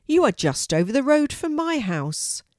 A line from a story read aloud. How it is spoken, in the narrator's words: he exclaimed